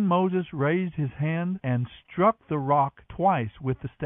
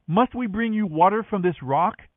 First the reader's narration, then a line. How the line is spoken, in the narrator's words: he shouted